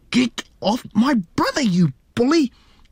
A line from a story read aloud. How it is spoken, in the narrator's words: Lisa screamed angrily